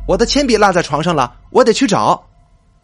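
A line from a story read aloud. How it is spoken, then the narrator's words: Loud call. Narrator (Chinese): 小毛大声叫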